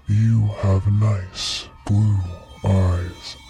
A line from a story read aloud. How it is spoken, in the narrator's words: The man grinned a horrible grin and said in a deep baritone voice